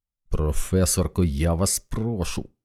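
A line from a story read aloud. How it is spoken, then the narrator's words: Hissed. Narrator (Ukrainian): прошипів Стентон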